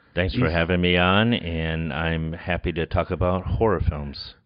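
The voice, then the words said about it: NPR radio announcer voice. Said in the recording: “doing your NPR voice”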